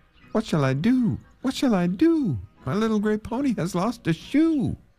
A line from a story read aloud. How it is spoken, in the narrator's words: he cried again